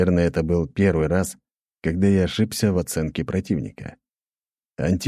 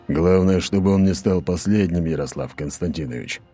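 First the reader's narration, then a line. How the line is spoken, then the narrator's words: Grumbling. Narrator (Russian): проворчал Аршавин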